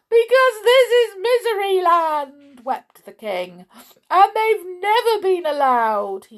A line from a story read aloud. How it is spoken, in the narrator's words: he sobbed